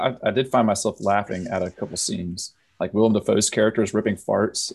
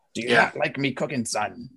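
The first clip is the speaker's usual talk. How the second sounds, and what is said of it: Crusty old sailor voice. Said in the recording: “has like this old sailor's speak. You know, he's an old crusty sailor.”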